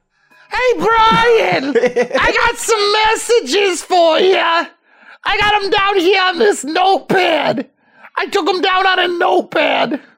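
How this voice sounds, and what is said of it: High-pitched scraggly Boston-accented voice. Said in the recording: “a high-pitched, scraggly voice and a sort of Boston accent, which he's impersonated”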